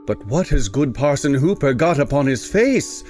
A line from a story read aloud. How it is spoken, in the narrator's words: cried the sexton in astonishment